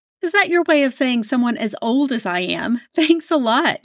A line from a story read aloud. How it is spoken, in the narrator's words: Jamie laughed